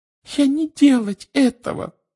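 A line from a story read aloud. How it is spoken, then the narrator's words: Frightened squeak. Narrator (Russian): пропищала она, от страха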